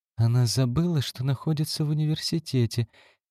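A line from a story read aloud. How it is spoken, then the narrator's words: Quiet. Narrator (Russian): тихо сказала доктор Кули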